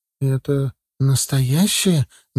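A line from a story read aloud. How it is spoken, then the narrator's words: Doubtful muttering. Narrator (Russian): недоверчиво пробормотала себе под нос Алиса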